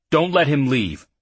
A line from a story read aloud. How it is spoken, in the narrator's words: he called harshly over his shoulder